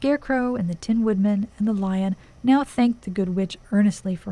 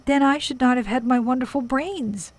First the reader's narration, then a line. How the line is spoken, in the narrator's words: cried the Scarecrow